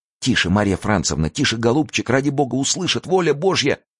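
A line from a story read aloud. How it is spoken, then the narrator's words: Stout woman babbling. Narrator (Russian): лепетала толстая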